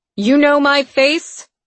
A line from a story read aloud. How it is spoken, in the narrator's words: she barked at the sentries